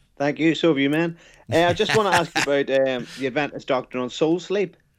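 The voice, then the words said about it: Irish accent. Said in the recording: “from Ireland ... You got a cool accent, man.”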